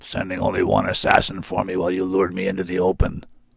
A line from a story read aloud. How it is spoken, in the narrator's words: it growled